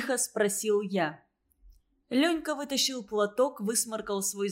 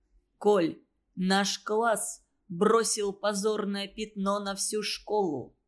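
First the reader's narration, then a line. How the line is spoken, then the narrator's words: Stern, almost solemn voice. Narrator (Russian): суровым, почти торжественным голосом сказал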